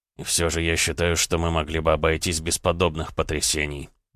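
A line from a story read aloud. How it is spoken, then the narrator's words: Grumbled. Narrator (Russian): проворчал Дмитрий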